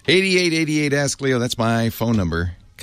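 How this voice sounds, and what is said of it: Very fast speech. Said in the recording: “I say that fast... I'm not an auctioneer. I should really say that a little more slowly”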